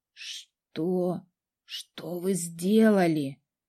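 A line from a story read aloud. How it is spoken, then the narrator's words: Hoarse voice. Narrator (Russian): прозвучал хриплый голос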